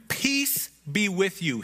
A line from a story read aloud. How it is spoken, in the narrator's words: he said